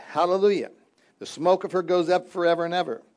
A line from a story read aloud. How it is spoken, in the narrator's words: And again they shouted